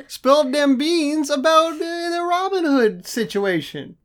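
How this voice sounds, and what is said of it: Put-on Southern US accent. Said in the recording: “We're doing a lot of accents this episode. ... I'm doing a lot of accents ... everyone's favorite good old boy from the South”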